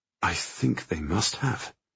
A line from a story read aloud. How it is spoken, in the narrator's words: I murmur